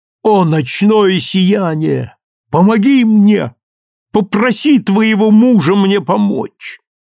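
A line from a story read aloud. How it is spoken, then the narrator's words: Shouted. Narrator (Russian): крикнул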